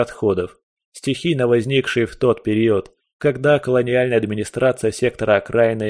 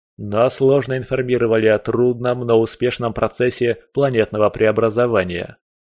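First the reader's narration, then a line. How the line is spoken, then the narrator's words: Plain. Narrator (Russian): ответил Ван Крейг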